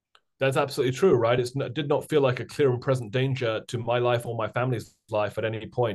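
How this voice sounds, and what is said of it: British accent. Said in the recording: “my strange British accent”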